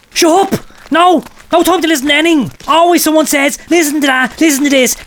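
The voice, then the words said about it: Angry shouting. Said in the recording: “when I'm shouting at you”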